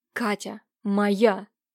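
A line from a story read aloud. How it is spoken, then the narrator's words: Exhausted hiss in reply. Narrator (Russian): прошипел в ответ из последних сил Левашов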